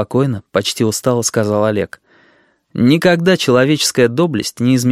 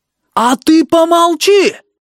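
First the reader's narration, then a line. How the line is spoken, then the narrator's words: Shout. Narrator (Russian): крикнул Сыроницкий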